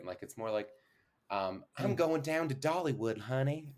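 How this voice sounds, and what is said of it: Put-on sweet Georgian Southern accent. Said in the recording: “my Tennessee, my accent always turns out like more Georgian ... more of like a sweet Georgia instead of like a Tennessee is more twangy, which I can't do.”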